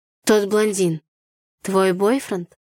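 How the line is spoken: Hoarse question. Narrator (Russian): хрипло спросил Артур

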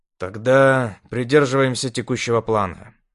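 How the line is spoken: Heavy sigh. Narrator (Russian): тяжело вздохнул я

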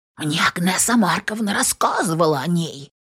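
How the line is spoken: Whispered agreement. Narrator (Russian): поддакивает шепотом Ба

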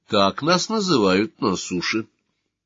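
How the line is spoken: Calm, young woman. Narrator (Russian): спокойно сказала девушка

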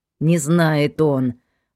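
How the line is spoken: Creaky voice. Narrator (Russian): проскрипел Валера

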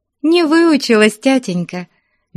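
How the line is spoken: Cheerful. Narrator (Russian): весело отвечала Аграфена Петровна

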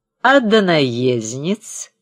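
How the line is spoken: Nasal voice. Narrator (Russian): спросил кто-то носовым голосом

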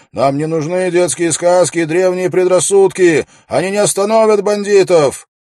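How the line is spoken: Unknown voice shouting. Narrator (Russian): чей-то голос крикнул

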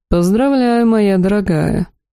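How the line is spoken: Purring. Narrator (Russian): промурлыкал тот

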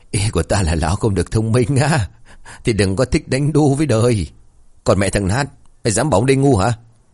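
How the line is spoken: Laughing loudly. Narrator (Vietnamese): Lão Nát cười lớn rồi bảo

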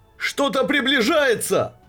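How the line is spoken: Worker shouting. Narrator (Russian): закричал один из человеческих работников

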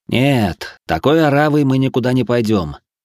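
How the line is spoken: Gloomy. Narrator (Russian): мрачно покачал я головой

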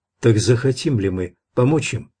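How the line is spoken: Plain. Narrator (Russian): спросила она

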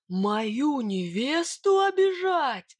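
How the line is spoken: Roaring warrior. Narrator (Russian): взревел богатырь

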